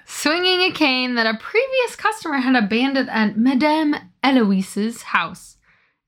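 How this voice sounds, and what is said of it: Amateur put-on French accent. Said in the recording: “Is that how you say that with a French accent? ... it's as good as either of us are able to get without actually having, like, spoken French for many years.”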